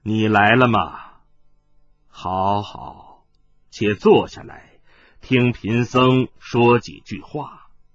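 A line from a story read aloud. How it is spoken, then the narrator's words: Deep, grave. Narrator (Chinese): 无色大师沉声说道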